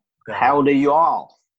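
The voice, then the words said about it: Odd put-on accent. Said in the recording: “I don't know what that accent was.”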